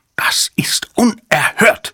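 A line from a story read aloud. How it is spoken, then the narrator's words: Roar. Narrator (German): brüllte Numataka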